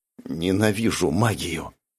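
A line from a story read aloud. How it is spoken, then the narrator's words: Whisper. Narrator (Russian): прошептал Джувон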